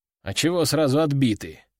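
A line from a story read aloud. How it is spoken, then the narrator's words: Offended grumble. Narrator (Russian): обиженно буркнул я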